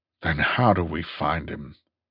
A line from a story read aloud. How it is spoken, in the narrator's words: He asked wearily